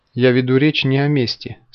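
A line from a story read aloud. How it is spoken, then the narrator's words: Calm. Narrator (Russian): спокойно ответил Антон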